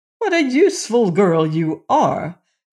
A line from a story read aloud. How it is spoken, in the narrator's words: cried the prince, beside himself with joy and admiration